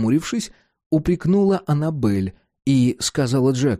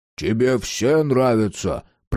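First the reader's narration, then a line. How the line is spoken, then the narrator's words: Grumble. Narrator (Russian): проворчал Карл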